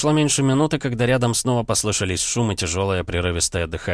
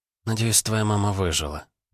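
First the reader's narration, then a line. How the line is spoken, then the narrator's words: Hunter's mutter. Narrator (Russian): пробормотала охотница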